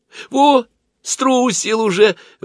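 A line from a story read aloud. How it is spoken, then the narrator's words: Exclamation. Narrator (Russian): воскликнула Аглая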